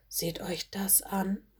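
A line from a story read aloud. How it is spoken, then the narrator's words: Quiet murmur. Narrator (German): murmelte sie leise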